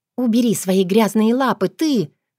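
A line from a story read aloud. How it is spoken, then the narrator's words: Hissing. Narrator (Russian): зашипела я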